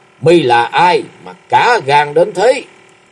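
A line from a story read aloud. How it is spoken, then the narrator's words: Murderous loud shout. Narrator (Vietnamese): Lạc Thiên Vân mặt sát khí lớn tiếng quát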